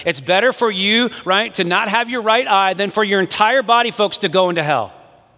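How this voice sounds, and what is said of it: Yelling loudly. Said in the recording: “Sorry, I'm yelling at you.”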